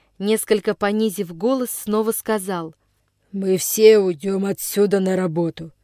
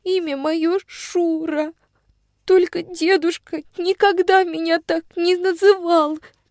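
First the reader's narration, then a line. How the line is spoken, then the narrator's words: Very quiet, tearful girl. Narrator (Russian): Еще тише роняла сквозь слезы девочка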